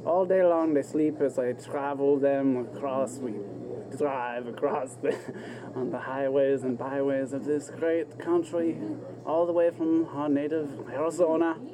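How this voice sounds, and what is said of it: Unfamiliar put-on foreign accent. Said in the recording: “You have an accent, it doesn't sound like an accent I would associate.”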